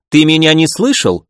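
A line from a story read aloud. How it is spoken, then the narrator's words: Irritated snap. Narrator (Russian): раздраженно бросила Джао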